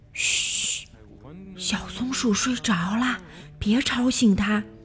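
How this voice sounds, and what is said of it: Soft, quiet whispering voice. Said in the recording (Chinese): “小声地说”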